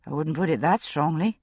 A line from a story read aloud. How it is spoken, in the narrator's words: I said dryly